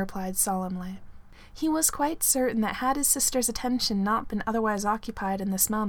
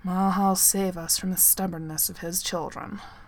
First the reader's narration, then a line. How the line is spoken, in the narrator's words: Thorn said gruffly